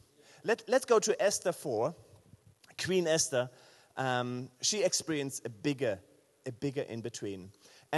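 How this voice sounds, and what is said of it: German accent in English. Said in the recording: “my English. Do you like a German accent?”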